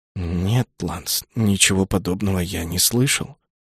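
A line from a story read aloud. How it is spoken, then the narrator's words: Strained, reluctant. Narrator (Russian): выдавил наконец из себя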